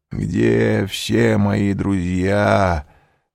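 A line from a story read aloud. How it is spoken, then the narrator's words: Weak mumble. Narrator (Russian): пробормотал он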